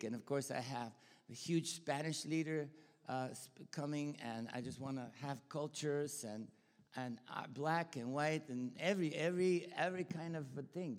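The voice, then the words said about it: Bulgarian accent in English. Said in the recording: “I'm Bulgarian, you know. And I'm not Texan, right? You can tell by the accent ... you could tell my Bulgarian accent”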